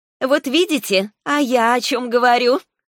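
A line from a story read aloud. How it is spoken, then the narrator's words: Laughing dragoness. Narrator (Russian): рассмеялась драконица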